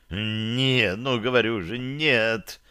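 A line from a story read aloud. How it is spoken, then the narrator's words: Groaning. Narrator (Russian): простонал Ромул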